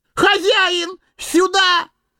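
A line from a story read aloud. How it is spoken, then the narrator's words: Sudden yell. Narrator (Russian): завопил вдруг Сэмми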